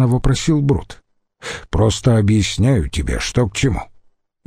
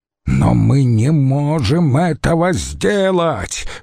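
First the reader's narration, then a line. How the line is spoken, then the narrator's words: Roared. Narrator (Russian): взревел Катон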